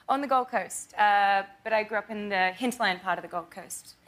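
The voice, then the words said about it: Australian accent. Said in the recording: “you are from Australia, if you can't tell from the accent ... you do such a great American accent ... But you are Australian”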